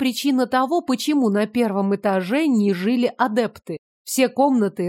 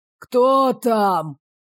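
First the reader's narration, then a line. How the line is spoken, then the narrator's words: Hoarse voice. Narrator (Russian): хриплый голос безногого бро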